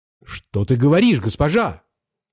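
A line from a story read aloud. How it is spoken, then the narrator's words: Little ship shouting. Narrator (Russian): закричал кораблик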